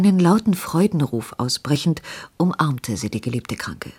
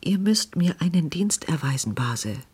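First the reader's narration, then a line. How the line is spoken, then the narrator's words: Anxious hurried whisper. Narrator (German): flüsterte sie in unruhiger Hast ihr zu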